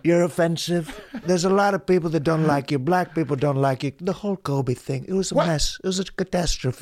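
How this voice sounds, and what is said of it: Imitates another person's voice. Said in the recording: “This is more of a Donald Trump right here. ... You're nailing it ... that's what it would be like if I did Trump ... I say it's a good Trump impression.”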